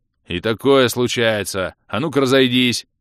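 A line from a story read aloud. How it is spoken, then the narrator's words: Guard, booming bark. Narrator (Russian): зычно гаркнул стражник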